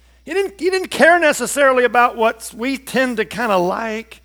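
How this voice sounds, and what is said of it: Usual voice. Nothing is said of it.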